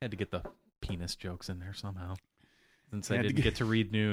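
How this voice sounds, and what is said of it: Usual voice. Nothing is said of it.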